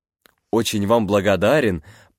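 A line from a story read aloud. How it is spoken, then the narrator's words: Muttering. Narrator (Russian): пробормотал Джордж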